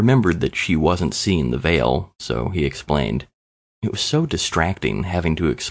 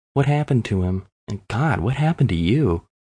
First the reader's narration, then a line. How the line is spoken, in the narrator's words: Leo sighed